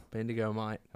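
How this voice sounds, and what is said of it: Put-on Australian accent. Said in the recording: “Are you Australian? ... Australian accent”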